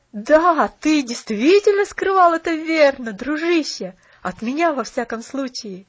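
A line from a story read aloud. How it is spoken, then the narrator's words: Cheerful exclamation. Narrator (Russian): весело воскликнул Джимми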